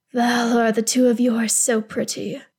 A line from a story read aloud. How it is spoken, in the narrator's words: Gil-galad rumbles, voice thick with want